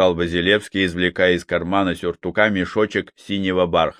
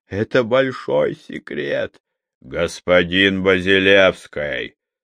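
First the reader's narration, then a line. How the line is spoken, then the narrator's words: Growled. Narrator (Russian): снова рыкнул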